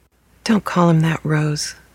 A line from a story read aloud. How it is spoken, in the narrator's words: Chloe sighed at me